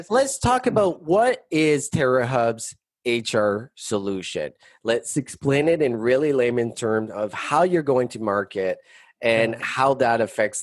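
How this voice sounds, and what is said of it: French-accented English. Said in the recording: “really pour on the French accent ... Why do you always make fun of my French accent”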